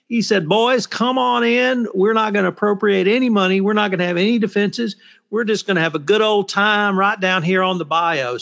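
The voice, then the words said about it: Exaggerated Southern twang. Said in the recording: “Southern twang that you put on there ... you emphasized it a little more than your natural Texas twang”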